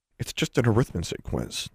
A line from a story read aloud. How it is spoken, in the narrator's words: Alexandra muttered